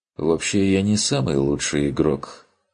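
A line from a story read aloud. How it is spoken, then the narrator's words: Heavy sigh. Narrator (Russian): тяжело вздохнул тот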